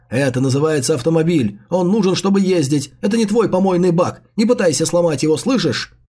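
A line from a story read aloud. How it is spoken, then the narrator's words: Shout. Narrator (Russian): Джао Юньлань закричал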